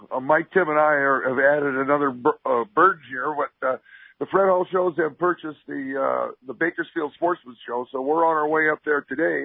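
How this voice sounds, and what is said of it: Tired, worn-out, hoarse voice. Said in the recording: “Pretty tired, man. ... My voice is gone. I'm hoping I can talk tomorrow.”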